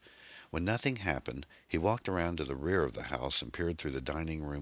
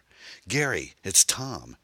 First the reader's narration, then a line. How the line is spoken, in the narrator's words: cried, wanting nothing more right now than to simply see another human being